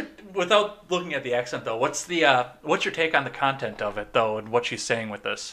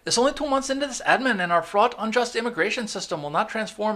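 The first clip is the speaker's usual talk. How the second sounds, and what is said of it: Imitated woman's accent. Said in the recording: “I do that accent with her ... you not sounding like her”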